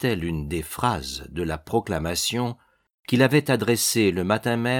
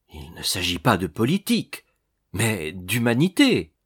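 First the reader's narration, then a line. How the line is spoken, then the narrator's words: Exclaiming. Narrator (French): s'écria-t-il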